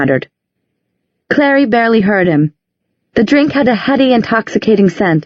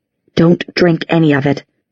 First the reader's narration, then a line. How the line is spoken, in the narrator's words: said under his breath